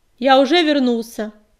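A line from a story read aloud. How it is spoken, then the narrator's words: Loud announcement. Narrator (Russian): громко объявил Огнегрив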